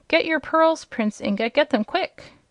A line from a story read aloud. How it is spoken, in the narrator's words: King Rinkitink suddenly cried out